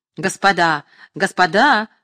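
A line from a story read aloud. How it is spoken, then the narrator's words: Shout. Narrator (Russian): кричал Петровский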